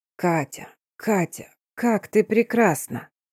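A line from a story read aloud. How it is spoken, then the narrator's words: Whisper. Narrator (Russian): шептал Стефан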